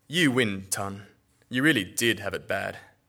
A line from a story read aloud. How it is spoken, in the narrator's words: someone snorted, saying loudly